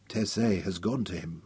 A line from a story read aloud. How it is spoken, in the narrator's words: Royan whispered softly